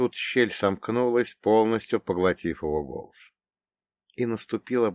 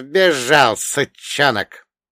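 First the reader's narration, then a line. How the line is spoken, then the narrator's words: Hoarse old man's snort. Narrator (Russian): хрипло фыркнул дед Маркей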